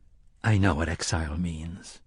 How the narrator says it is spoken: Roland said softly

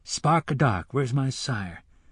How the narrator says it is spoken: the boy murmured

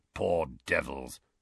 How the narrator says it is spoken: growled Moody

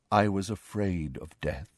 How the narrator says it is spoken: said Nick softly

